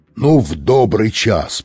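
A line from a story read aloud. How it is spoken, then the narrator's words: Roared through megaphone. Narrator (Russian): проревел мегафон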